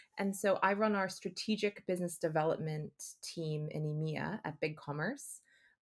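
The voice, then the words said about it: American accent. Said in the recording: “you can tell from the accent that I'm originally from the US”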